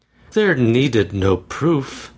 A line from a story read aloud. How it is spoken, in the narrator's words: said Georgiana quietly